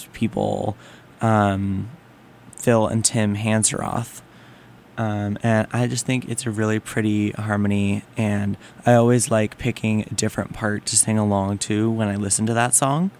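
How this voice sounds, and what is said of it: Slightly rough, hoarse morning voice. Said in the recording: “my voice is a little rough right now considering it's just barely past 7 in the morning”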